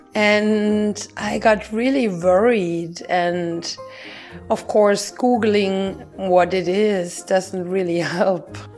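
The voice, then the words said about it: Slightly sore, strained voice. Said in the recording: “My voice is back and it's still a little sore”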